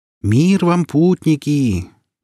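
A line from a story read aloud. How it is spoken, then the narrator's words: High melodic chant. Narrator (Russian): высоким, мелодичным голосом нараспев произнес гном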